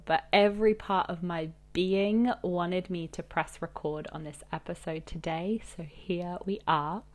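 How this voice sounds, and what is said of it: Slightly altered, sick-sounding voice. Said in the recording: “I am getting better from a persistent cold, so my voice is sounding slightly different than usual”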